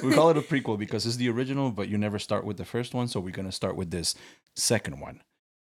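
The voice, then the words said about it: Slight Spanish accent. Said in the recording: “You still have that little Spanish accent.”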